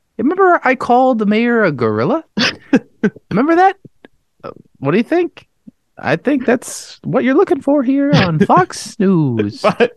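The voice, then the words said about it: Impression of a news host. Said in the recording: “Great impression.”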